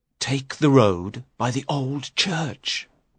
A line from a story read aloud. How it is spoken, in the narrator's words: Richard whispered